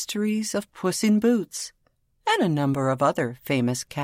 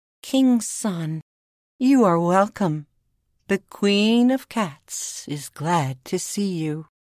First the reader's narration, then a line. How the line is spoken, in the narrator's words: She looked very strong and very sad, and in a sweet little voice that went straight to his heart, she said to the prince